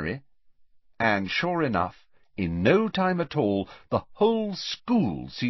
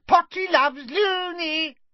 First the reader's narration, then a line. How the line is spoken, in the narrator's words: cackling and shrieking